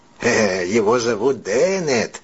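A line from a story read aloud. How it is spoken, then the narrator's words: Distinct creaking voice. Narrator (Russian): еще отчетливее проскрипел сам ММС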